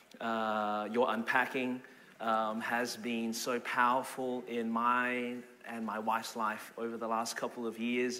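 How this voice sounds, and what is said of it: Australian accent. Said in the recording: “Born and raised in Melbourne, Australia. That's the reason my voice is this way.”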